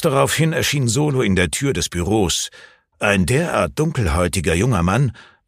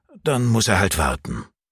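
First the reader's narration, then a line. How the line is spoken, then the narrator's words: Sighing. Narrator (German): seufzte Stefan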